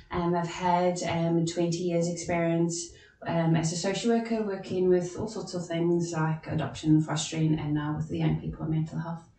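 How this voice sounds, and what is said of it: South African accent. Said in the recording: “As you can hear from my voice, I'm also not from Northern Ireland, I'm from South Africa originally.”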